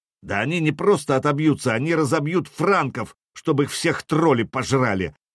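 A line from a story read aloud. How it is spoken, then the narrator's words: Snarled. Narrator (Russian): рыкнул пешеход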